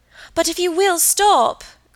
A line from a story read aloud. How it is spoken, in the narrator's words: cried Margaret